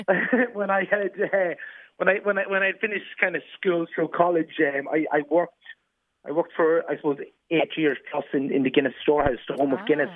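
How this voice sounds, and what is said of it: Irish accent from Dundalk. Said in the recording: “You might actually tell by my accent. I'm from Dundalk originally.”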